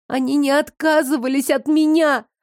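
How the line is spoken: Shouting. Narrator (Russian): закричала я

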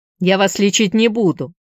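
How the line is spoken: Sharp, curt. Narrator (Russian): Экстрасенс резко сказал

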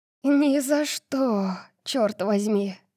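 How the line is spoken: Breathed out. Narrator (Russian): Выдохнула Дарси

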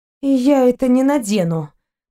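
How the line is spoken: Gloomy. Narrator (Russian): мрачно проговорила пленница

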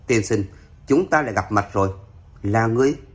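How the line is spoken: Smiling. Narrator (Vietnamese): Thiếu nữ cười nói

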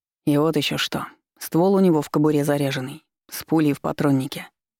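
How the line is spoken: Calm. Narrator (Russian): спокойно продолжал Иван

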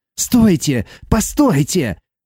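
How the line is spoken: Shouting. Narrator (Russian): закричал Дэн

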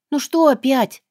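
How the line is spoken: Resigned groan. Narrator (Russian): застонала обреченно

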